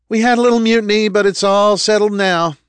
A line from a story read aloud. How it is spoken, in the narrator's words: the driver shouted